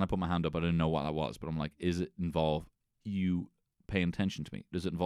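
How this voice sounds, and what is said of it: Usual voice. Nothing is said of it.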